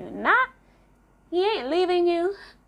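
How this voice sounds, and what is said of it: Briefly slips into different accent. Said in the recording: “change my accent sometimes”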